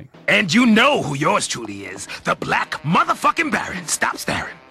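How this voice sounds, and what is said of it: Black Baron pimp character voice. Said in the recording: “the Black Baron ... I think it's Reno Wilson doing the voice. Yeah, pimps are always funny.”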